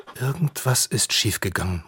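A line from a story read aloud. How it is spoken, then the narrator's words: Murmured. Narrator (German): murmelt Lisa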